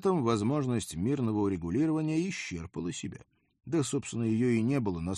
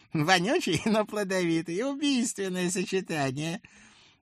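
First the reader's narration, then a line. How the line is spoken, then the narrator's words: Giggling. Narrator (Russian): Герольд не выдержал и хихикнул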